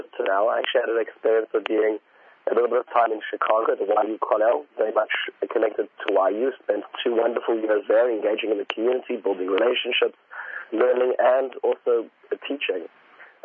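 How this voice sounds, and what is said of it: Slight South African accent. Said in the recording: “it sounds like you have a little bit of an accent. You're not exactly from around these parts. ... Where you grew up in Johannesburg in South Africa”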